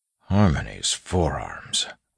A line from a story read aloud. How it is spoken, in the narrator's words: Waxillia mumbled